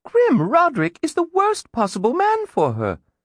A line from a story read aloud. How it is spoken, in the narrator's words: Kaylee exclaimed